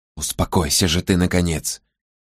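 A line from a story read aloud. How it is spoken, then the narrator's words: Whisper in ear. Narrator (Russian): прошептала она в ухо Мэгги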